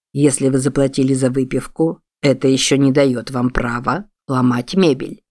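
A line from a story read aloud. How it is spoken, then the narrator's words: Still calm tone. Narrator (Russian): сказал Чарльз, пока еще спокойным тоном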